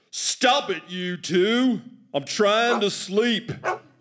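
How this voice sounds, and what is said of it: Deep southern accent, yelling. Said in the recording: “our father has a really deep southern accent”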